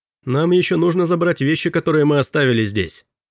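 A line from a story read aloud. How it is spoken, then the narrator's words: Calling out after someone. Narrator (Russian): крикнул Робби в спину быстро удаляющегося мистера Дэвиса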